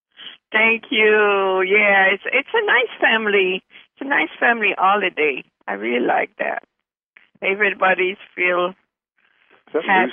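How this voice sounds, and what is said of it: French Canadian accent. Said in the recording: “I'm from Montreal, so I have a French accent.”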